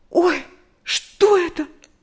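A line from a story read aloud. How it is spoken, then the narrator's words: Frightened cry. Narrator (Russian): В испуге вскрикнула Нэнси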